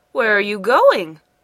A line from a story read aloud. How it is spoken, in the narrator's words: cried Ming